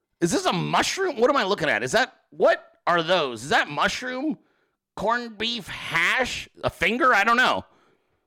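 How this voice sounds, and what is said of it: Imitates another person's voice. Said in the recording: “I'm doing my best fucking Gordon Ramsay impression”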